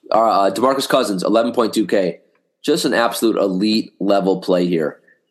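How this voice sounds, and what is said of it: Hoarse, failing voice. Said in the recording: “Man, my voice, guys. I'm losing my voice. ... I shall not give in to this cold.”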